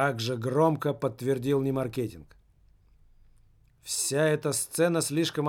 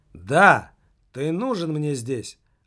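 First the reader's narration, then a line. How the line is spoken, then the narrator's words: Loud answer. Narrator (Russian): ответил Пенза громко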